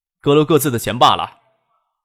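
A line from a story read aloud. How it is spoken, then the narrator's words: Smiling. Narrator (Chinese): 陈家善笑意不减的说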